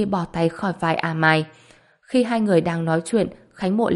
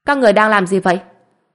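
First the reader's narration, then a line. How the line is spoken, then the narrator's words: Angry speech. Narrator (Vietnamese): Kim Phi tức giận nói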